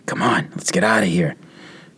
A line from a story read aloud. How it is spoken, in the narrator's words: I said in a whisper